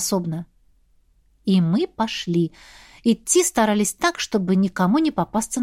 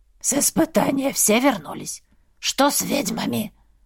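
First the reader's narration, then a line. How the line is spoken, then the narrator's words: Hoarse questioning voice. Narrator (Russian): уточнил один с хриплым голосом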